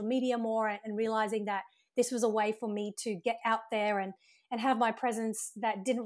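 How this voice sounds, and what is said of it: Australian accent. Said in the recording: “your accent, which I think is phenomenal ... It's so cool ... Australian accent”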